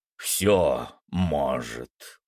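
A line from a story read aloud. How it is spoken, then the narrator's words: Creaky voice. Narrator (Russian): проскрипел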